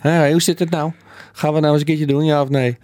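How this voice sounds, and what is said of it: Imitated Amsterdam accent. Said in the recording (Dutch): “op zijn Amsterdamse accent ... ik kan niet eens nadoen”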